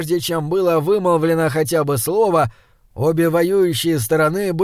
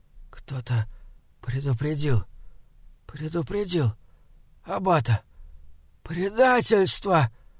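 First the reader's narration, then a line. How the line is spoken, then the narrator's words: Hoarse whisper. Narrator (Russian): Это был только хриплый шепот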